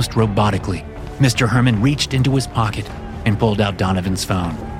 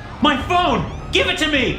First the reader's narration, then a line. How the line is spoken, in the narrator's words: Donovan shouted